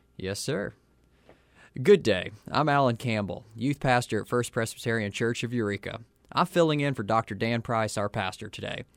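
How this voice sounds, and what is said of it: Texan accent. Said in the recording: “you could probably tell from my accent anyhow, that I'm not from around here. I was raised in Texas”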